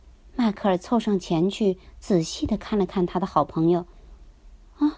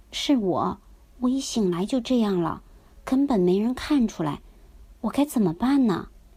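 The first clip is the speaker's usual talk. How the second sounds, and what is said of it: Quiet, hushed speech. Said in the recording (Chinese): “小声地说”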